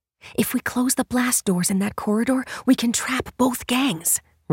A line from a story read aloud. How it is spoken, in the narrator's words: Ray whispered back